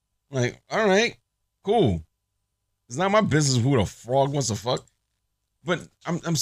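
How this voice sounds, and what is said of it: Usual voice. Nothing is said of it.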